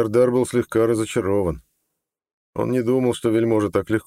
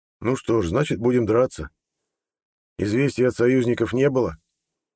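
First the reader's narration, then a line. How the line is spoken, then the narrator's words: Firm voice. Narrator (Russian): На удивление твердым голосом спросил Гирсос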